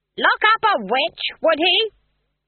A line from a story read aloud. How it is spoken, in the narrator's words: Granny shouted at the trees